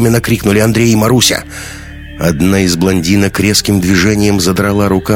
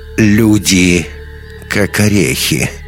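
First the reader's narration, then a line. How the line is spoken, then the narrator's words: Creaky old woman. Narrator (Russian): проскрипела страшная старуха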